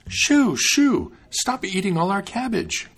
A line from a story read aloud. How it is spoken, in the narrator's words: cried the maiden